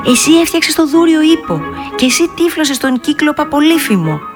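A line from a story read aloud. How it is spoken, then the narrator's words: Excited shout. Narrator (Greek): φώναξε ενθουσιασμένη η Δανάη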